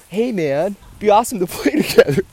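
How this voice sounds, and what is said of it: Imitates another person's voice. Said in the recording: “my Kyrie impression”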